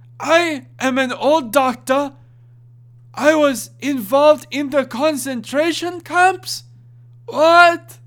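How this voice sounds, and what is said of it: Slow, old, vaguely German character voice. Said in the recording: “Old, ever so vaguely German voice. ... He talks really slow. ... That's a very, very good Nimdok.”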